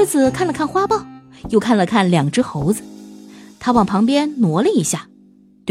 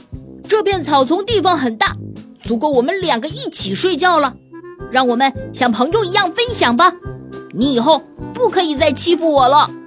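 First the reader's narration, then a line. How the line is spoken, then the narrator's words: Loud, bold voice. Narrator (Chinese): 鼓起勇气，大声地对狮子说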